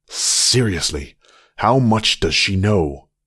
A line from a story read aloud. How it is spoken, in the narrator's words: Seth snapped